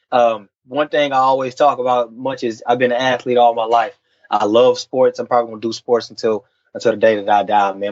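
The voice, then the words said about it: Texan country accent. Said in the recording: “I'm a small town country boy, dude... I come from a small town in Texas. The accent and everything”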